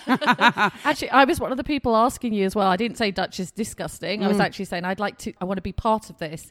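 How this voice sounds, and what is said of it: British accent, pleasant voice. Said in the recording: “She's from the UK. So whenever you hear wonderful pipes with awesome accent, it's going to be her.”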